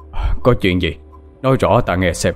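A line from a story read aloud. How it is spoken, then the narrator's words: Stern. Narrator (Vietnamese): Thầy Đạt nghiêm giọng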